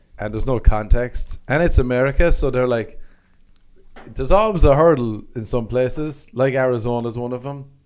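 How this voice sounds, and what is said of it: Strong accent. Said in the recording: “with my accent. They're like, is that real? Is this a bit?”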